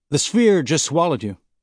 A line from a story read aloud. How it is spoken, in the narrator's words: Alex said